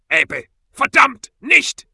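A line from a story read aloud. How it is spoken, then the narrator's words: Sharp, authoritative, echoing. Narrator (German): Ezekiels Stimme hallte durch die Mine, scharf und voller Autorität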